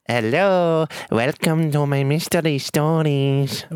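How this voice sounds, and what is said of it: Put-on Mexican accent. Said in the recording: “He's a frog Mexican ... Does sound a lot like the Gringo ... It's the same Mexican voice”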